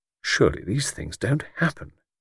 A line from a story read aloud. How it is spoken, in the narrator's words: he murmured